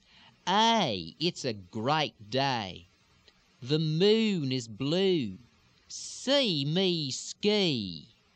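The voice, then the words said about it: Slow, drawn-out Houston Texas accent. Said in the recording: “it's a little slower and a little bit more drawn out, still pushed forward into the lips. You're going to tend to have a little bit more lilt, a little bit more of the elongation, the pushed vowels or the reversed lilt extensions ... Really push those reverse extensions forward ... this sounds fairly similar to a lot of Deep South sounds”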